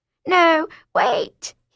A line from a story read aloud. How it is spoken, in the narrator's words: he cried